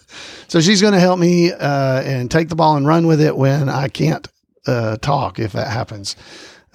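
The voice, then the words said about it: Voice sounds a little off. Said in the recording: “my voice is a little off still this week”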